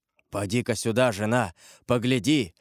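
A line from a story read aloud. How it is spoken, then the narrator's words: Hoarse voice. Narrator (Russian): проговорил хриплым голосом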